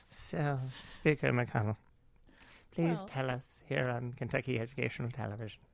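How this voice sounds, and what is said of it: Slow public-television announcer voice. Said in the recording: “That's not a Kentucky accent. ... Everybody talks like this, yes. ... it seems to move slower than it normal does indeed.”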